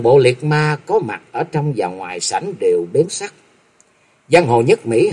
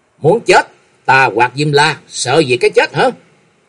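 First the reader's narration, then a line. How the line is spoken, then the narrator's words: Loud shout. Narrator (Vietnamese): Trần Lâm quát lớn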